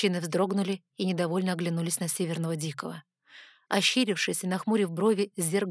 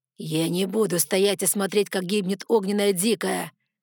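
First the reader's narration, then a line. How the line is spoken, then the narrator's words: Growl. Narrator (Russian): зарычал зерк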